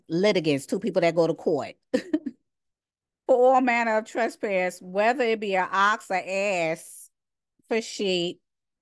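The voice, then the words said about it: New York accent. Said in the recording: “my New York accent.”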